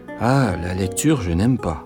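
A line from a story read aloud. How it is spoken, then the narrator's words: Sulky child grumbling. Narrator (French): grommela l'enfant boudeur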